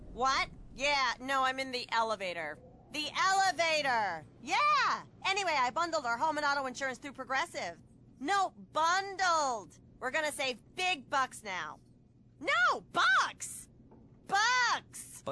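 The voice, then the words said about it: Loud shouting phone-in-elevator caller voice. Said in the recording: “my impression of a person having a phone conversation in the elevator.”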